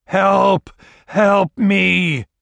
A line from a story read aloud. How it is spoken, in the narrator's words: His voice echoed over the dead moorlands